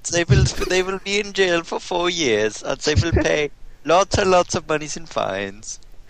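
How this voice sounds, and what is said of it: Put-on Swedish accent. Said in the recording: “You should have read that in your Swedish accent.”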